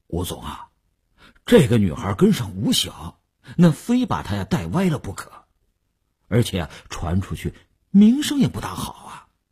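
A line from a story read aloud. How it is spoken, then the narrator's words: Hesitant. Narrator (Chinese): 李大公欲言又止，李大公才说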